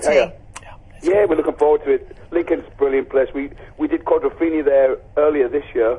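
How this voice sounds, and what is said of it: Slight northeast English accent. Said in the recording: “Do I detect a slight northeastern accent there ... I'm from the northeast. Originally, I'm from Stockton-on-Tees”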